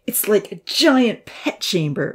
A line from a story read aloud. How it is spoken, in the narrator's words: Odin sneered